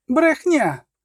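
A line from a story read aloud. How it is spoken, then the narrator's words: Shouted. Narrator (Ukrainian): крикнула Цірі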